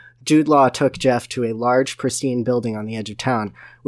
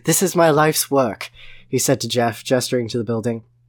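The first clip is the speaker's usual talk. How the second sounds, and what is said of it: Poor put-on British accent. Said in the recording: “my terrible British accent”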